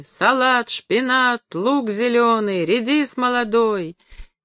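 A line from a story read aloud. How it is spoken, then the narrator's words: Vendors' chanted tenor calls. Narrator (Russian): Продавцы кричали нараспев теноровыми голосами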